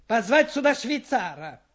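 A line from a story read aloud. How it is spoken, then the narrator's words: Shout. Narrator (Russian): крикнул он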